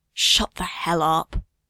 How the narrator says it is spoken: hissing

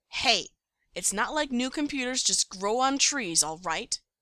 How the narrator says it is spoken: Stiles snaps, annoyed at Scott's impatience

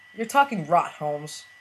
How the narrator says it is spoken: Burnham said, but the underside of his voice was all uncertainty and brief glimmers of hope

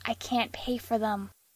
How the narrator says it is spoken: Castiel whispered, the obstacle only occurring to him now

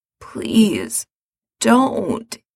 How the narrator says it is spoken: says hoarsely

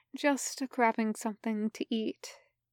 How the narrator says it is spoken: murmured, stretching

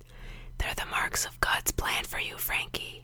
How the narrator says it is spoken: he whispered against Frank's temple

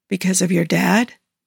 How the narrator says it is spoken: Joe said softly

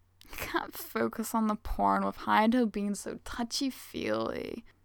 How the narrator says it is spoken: Hugo whines, somewhere further up and back

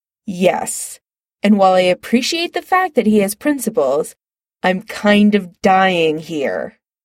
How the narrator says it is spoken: Chris says impatiently

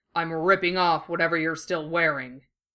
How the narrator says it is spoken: growls in his ear

